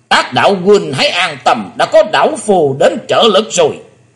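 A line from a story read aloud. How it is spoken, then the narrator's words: Old man's bell-like roar. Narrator (Vietnamese): Vạn Bát Kỳ Trân là chính lão nhân đã gầm lên tợ như chuông đồng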